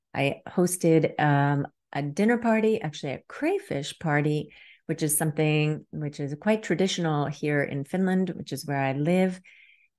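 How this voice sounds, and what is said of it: Harsh, hoarse voice. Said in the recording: “my voice is a bit harsh this morning because I had a lovely time last night”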